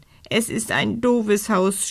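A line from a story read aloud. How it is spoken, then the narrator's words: Sobbing. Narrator (German): schluchzt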